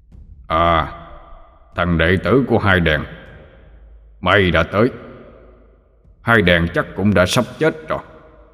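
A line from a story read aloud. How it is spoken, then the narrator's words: Booming thunderous voice. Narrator (Vietnamese): Abraham giọng ông ta ồm ồm như sấm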